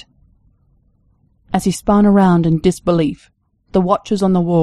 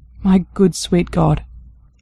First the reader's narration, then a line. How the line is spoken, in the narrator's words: he murmured finally